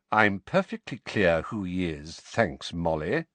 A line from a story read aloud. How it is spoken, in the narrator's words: said Sirius coldly